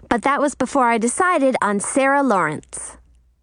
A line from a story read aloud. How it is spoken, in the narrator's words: I said quickly